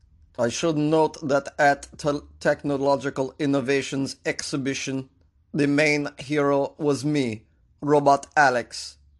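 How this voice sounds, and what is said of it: Russian robot newscaster voice. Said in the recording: “do an impression of a Russian robot delivering the news”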